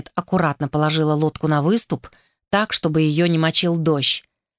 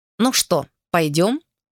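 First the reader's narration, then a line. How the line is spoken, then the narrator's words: Plain. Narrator (Russian): сказала она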